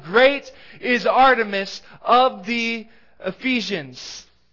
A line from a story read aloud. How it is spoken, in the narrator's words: this mob shouting